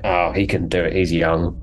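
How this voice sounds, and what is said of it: Imitates another person's voice. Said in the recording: “my Nick Briggs impression. It's not meant to sound anything like him.”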